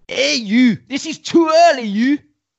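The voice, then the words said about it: Put-on Scottish accent. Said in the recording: “That is a quality Scottish accent. ... Not in such a Russ Abbott way.”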